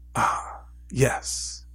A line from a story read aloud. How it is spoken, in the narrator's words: he said softly